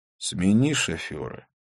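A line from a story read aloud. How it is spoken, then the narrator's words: Weak snort. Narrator (Russian): он слабо хмыкнул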